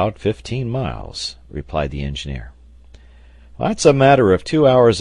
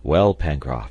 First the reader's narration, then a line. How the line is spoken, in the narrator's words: asked Harding